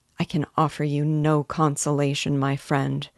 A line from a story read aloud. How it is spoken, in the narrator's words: said he